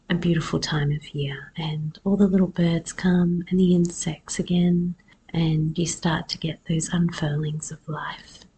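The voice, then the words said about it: Husky voice. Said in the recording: “my voice is a little bit husky. I actually lost my voice last week. I only had a little bit of a cold”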